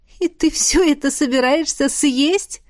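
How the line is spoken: Laughing. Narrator (Russian): Засмеялась

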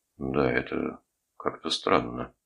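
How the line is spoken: Muttered. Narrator (Russian): пробормотал Джереми

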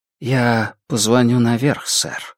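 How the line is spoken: Quiet, funereal tone. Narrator (Russian): сказал портье тихим голосом распорядителя на похоронах

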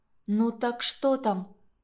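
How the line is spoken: Whispered. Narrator (Russian): прошептала я

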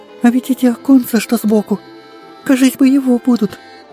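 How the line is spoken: Joyful, impatient girl. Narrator (Russian): радостно соображает девочка и от нетерпения слегка подпрыгивает на облучке

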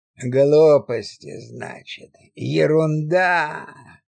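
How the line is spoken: Snide creaky voice. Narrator (Russian): ехидно проскрипел Нектарий

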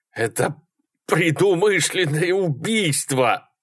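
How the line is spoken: Forced out. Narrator (Russian): наконец выдавил он

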